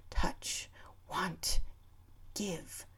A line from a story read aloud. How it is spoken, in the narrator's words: words whispered through my head